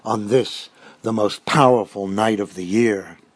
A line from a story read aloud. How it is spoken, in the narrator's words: Shaheen growled